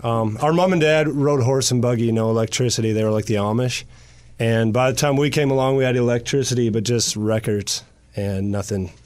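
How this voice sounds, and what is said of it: Canadian accent. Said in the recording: “So the accent, you're from Canada.”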